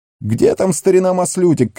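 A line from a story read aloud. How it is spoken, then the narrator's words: Shouting from the hall. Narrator (Russian): кричали из зала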